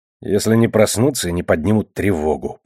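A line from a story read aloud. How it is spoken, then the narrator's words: Grumbled. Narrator (Russian): пробурчал я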